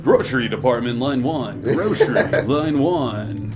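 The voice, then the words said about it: Mock radio announcer voice. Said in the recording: “radio voice ... That's me doing an impression ... That's my white people impression.”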